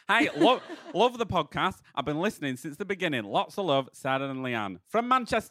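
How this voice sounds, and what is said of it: Put-on Manchester accent. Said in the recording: “shall I do a man? No, Manchester accent. ... How am I going to do Manchester?”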